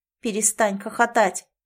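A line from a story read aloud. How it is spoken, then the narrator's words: Grumbled. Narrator (Russian): проворчала Лори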